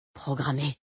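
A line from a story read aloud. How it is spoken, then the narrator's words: Murmured, eyes squeezed shut. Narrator (French): murmura-t-il en serrant les paupières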